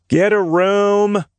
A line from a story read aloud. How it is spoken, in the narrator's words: Jameson called out